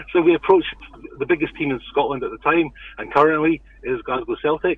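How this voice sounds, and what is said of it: Scottish accent. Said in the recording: “we live in Scotland, as you may tell from the accent.”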